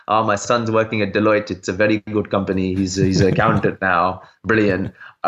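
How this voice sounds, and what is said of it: Put-on Indian accent. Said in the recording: “my dad's Indian accent”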